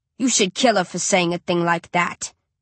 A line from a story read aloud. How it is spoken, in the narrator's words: Kinslow growls